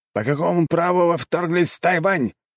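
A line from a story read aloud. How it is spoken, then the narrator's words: Angry shout. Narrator (Russian): сердито прокричал командующий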